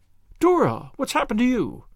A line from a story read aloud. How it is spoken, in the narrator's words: cried Anne